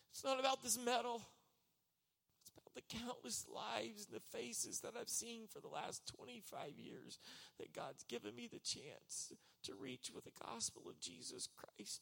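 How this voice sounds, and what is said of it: Emotional, choked-up voice. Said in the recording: “Why are you getting emotional?”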